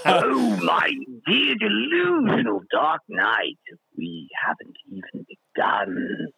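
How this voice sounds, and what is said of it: Mark Hamill's animated Joker impression. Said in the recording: “my best impression is the probably the Joker one ... Mark Hamill ... from the animated”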